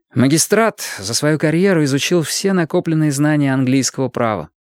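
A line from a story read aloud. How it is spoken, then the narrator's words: Plain. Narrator (Russian): сказал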